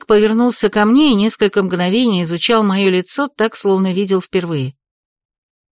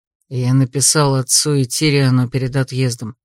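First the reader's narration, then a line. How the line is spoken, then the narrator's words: Quiet speech. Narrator (Russian): тихо проговорил Эрик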